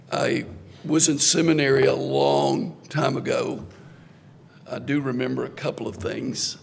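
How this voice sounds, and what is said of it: Rough, hoarse speaking voice. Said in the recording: “apologize for my voice ... I had a procedure for my vocal cords 2 weeks ago tomorrow ... that accounts for the roughness of my voice”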